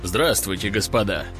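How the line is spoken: Dry. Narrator (Russian): сухо начал генерал

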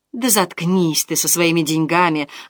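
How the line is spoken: Spiteful hiss. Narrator (Russian): злобно зашипела Клеменция

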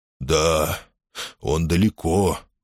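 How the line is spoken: Muffled giant's voice. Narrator (Russian): глухо подтвердил великан

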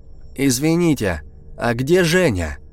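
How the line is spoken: Loud question. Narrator (Russian): громко спросил я, помня, что старик глуховат

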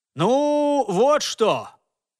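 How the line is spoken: Shouting to a crowd. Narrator (Russian): снова крикнул он в толпу

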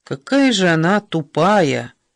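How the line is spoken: Weary. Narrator (Russian): сказал устало Эсме

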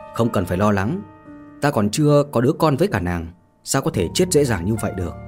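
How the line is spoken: Soft amused chuckle. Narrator (Vietnamese): Mạnh Hồ khẽ cười

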